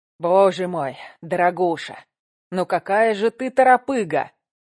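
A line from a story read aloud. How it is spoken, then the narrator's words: Grumbling. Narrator (Russian): ворчал Кравченко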